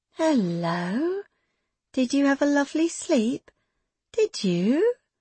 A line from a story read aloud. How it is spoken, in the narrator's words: Her voice was sugar, but her throat was bitter with bile